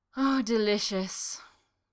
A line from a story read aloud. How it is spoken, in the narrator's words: sighed